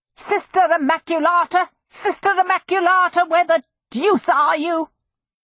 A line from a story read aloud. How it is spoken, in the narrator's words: that strident voice yelled